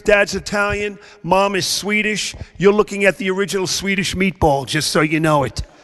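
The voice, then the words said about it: Strong Brooklyn New York accent. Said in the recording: “my very strong accent, I grew up in the very deep South, part of Brooklyn, New York.”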